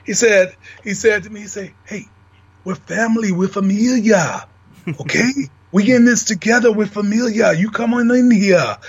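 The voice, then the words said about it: Imitates another person's voice. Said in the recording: “my Eddie Dusty impersonation”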